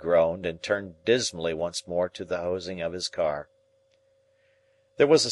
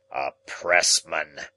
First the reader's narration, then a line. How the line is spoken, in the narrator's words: he growled